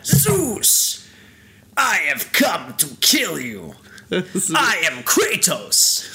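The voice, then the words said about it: Bad Kratos character impression. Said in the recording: “my Kratos impression ... That was really bad”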